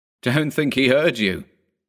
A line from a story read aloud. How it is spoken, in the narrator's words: said another, laughing